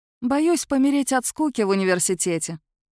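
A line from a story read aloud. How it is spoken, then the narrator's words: Deeply bitter sigh. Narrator (Russian): вздохнула я с бесконечной горечью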